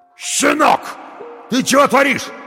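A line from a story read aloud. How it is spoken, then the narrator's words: Yell from behind. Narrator (Russian): заорал кто-то за спиной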